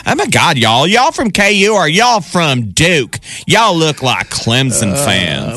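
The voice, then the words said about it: Put-on exaggerated Southern US accent. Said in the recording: “affect an annoying southern accent”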